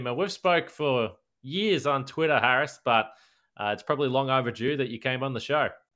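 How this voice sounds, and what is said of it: Australian accent. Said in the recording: “with your Australian accent”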